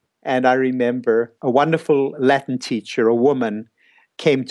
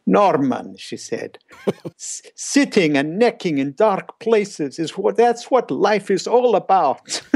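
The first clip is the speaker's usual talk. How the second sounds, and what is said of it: Weak imitated Italian accent. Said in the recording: “she had this Italian accent, wonderful Italian accent. ... I'll imitate it. I'm sorry, I'm not a good imitator.”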